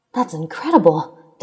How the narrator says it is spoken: Deku exclaimed

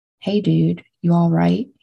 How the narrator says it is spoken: he asked Brad

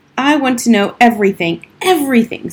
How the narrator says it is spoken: screeched Harriet suddenly

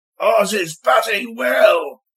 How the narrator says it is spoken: yelled triumphantly

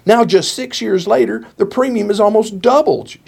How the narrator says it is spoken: she cried

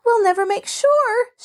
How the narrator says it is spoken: she wailed

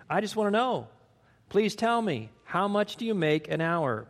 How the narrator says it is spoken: pleaded the little boy

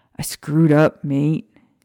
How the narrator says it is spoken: Sirius sighed

